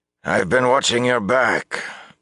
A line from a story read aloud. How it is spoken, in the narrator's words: Bukama announced gruffly